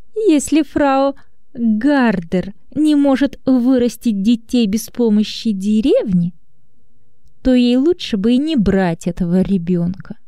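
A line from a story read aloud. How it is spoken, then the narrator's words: Sarcastic, through teeth. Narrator (Russian): Анна язвительно процедила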